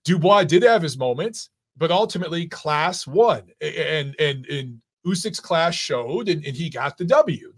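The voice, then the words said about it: Hoarse, worn-out voice. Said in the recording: “lost my voice”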